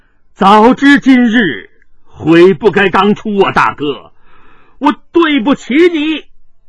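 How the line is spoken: Bitter rueful sigh. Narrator (Chinese): 铁青坚惨然一笑，仰天叹道

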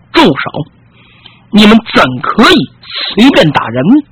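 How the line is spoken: Angry loud shout. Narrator (Chinese): 不觉得怒气冲冲，冲上去大喝一声

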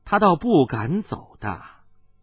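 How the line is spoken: Cold. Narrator (Chinese): 有人冷冷地说道

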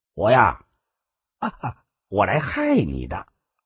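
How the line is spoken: Cold, offhand, with a laugh. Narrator (Chinese): 狄小侯冷冷淡淡的笑了笑，简简单单的告诉万君武

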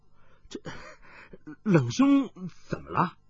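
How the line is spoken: Feigned alarm. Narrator (Chinese): 暗中一笑，故作失色道

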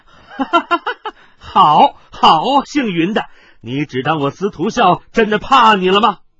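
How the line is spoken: Fierce wild laughter. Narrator (Chinese): 司徒孝厉声狂笑道

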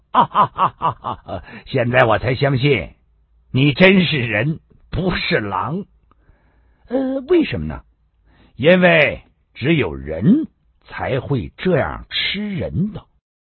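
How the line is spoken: Laughing loudly. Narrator (Chinese): 小马大笑

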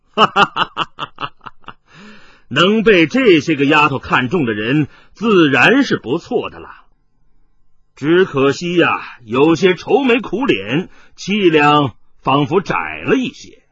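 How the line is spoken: Laughing heartily. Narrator (Chinese): 麻衣客大笑着说道

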